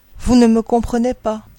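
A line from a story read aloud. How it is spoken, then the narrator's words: Sighing duckling. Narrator (French): soupirait le caneton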